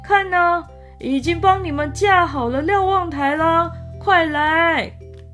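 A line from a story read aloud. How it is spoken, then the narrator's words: Shouted. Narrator (Chinese): 喊道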